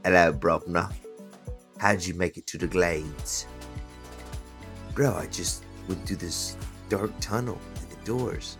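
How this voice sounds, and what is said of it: Put-on accent. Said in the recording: “Can I go first so I can steal my accent back now? ... That is 100% the accent I was going to do”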